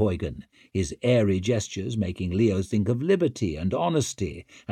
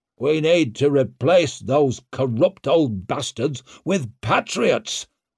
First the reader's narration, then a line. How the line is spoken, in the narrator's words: boomed Barazin